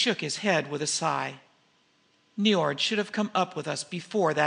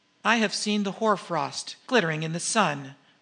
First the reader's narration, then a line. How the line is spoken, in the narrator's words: she answered